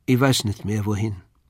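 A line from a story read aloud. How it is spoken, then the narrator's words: Toneless. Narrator (German): sagte sie tonlos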